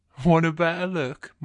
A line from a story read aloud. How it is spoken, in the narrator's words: my guy says, chuckling